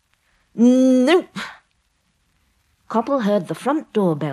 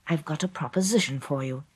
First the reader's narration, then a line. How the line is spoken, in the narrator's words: he said quietly